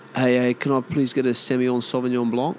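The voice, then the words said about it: Aussie mimicking posh wine pronunciation. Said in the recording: “You hear Aussies when they try and mimic the way it's supposed to sound.”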